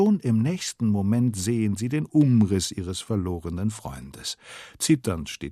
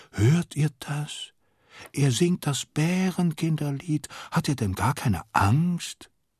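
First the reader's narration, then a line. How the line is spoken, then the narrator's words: Astonished whisper. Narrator (German): Castor flüstert erstaunt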